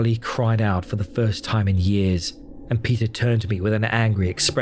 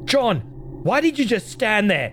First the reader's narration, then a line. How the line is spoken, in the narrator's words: He shouted